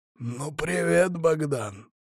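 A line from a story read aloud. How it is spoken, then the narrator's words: Hoarse voice. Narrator (Russian): послышалось хриплое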